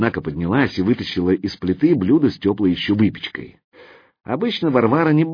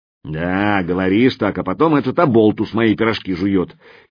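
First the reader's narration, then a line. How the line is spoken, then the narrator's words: Grumbling. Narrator (Russian): заворчала кухарка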